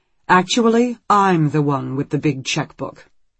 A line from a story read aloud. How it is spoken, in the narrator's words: Alice says sharply